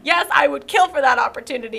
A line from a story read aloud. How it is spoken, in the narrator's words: I laughed